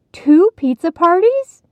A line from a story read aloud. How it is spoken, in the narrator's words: Heidi's mother exclaimed